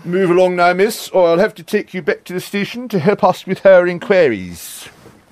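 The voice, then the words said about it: Impersonates a TV policeman character. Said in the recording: “my brilliant Dixon and Doc Green impersonation”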